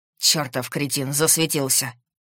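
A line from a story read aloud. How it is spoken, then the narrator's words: Irritated. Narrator (Russian): Раздраженно кинул Макс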